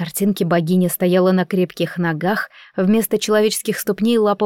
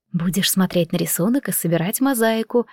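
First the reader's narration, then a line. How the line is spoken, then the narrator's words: Mother whispering. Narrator (Russian): прошептала мама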